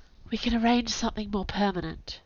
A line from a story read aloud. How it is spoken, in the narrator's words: said softly